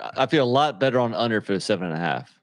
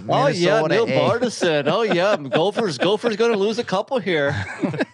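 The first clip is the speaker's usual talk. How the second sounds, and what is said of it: Put-on Minnesota accent. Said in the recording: “Can we do a Minnesota accent?”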